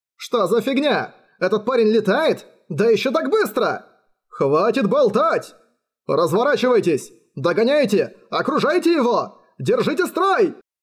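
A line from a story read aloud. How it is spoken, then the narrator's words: Fawn yelling. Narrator (Russian): заорал оленёнок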